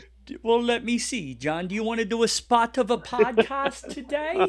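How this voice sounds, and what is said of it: Usual voice. Nothing is said of it.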